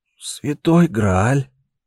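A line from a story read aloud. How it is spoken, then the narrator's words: Relieved exhale. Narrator (Russian): выдохнул он, словно сбросил с себя груз всего мира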